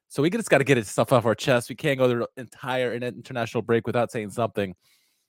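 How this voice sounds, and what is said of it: Voice off from illness. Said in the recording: “My voice is a little off tonight. Both Jack and I are sick as a dog. I'm recovering, so my voice is a little bit better”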